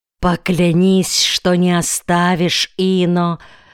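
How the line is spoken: Dying moan. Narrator (Russian): простонала черноглазая Малало, обдав его жарким предсмертным дыханием

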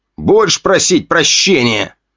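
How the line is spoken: Growled in face. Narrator (Russian): прорычал он мне в лицо

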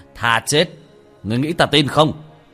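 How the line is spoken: Loud mocking laugh. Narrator (Vietnamese): Thần tôn cười lớn một tiếng

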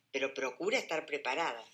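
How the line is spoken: Growled reply. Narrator (Spanish): contesta él con un gruñido

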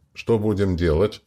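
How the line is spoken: Plain. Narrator (Russian): Наконец спросил он

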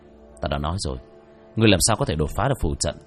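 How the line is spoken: Muttering. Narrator (Vietnamese): lẩm bẩm

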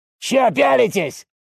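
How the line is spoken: Loud bark. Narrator (Russian): рявкнул на весь зал

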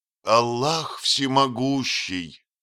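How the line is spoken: Desperate exclamation. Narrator (Russian): воскликнул отчаянным голосом

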